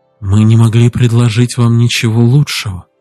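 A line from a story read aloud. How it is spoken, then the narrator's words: Soft reply. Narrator (Russian): Воспителла мягко ответила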